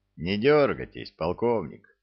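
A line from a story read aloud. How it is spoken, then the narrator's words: Level warning. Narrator (Russian): ровным голосом предупредил его Кунявский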